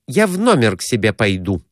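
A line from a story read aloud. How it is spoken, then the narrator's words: Irritated. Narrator (Russian): сказала она раздраженно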